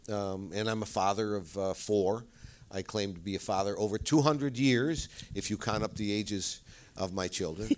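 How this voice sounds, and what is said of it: Great Lakes American accent. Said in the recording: “people accuse me of being from Chicago ... It is an accent that I believe it goes from Wisconsin and all the way through Chicago and Buffalo and Rochester”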